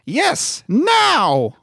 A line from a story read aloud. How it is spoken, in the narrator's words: cried Mrs